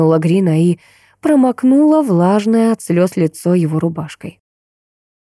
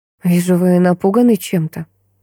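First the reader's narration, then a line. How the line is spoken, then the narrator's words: Confiding tone. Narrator (Russian): заметила я доверительным тоном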